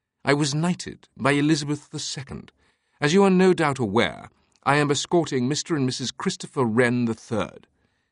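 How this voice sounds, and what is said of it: Highbrow upper-class British accent. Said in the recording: “his accent a highbrow Saxonesque British”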